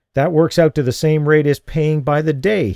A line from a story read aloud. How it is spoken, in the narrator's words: he said indignantly